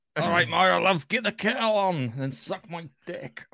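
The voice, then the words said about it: Put-on Scottish accent. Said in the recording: “Scottish accent.”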